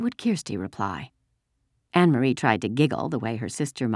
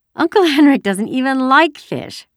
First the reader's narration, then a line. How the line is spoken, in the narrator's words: she said, laughing